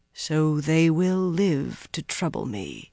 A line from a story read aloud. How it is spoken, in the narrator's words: he murmured